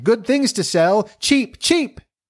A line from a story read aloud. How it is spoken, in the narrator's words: cried